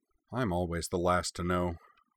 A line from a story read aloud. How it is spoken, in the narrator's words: Corwin grumbled